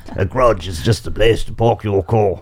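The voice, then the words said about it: South African accent, Tony Greig impression. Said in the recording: “said in South African accent ... It was more Kiwi than... ... like the tall man doing Tony Gregg. That's the only South African I can think of.”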